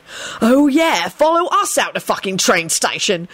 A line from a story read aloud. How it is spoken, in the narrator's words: Sirius shouted angrily over his shoulder